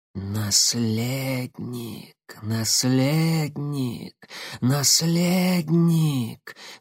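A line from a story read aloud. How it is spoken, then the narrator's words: Hoarse whisper, several voices. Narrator (Russian): хрипло шептали сразу несколько голосов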